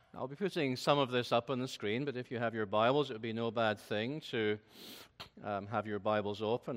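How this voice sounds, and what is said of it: Scottish accent. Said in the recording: “my beautiful Scottish accent”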